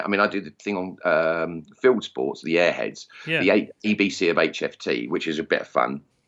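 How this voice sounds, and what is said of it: Essex English accent. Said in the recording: “my crude Essex accent”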